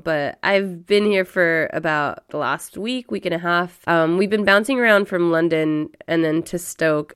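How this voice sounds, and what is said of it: Raspy, hoarse voice. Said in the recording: “I've got a bit of a cold, so I apologize about the raspiness of my voice, sounding like a teenage boy right now”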